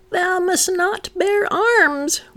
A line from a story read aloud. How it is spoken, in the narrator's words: one cried from the grotto